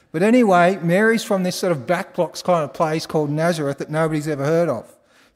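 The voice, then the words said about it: Australian accent. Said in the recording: “I told him I was from Australia ... I think it was my accent”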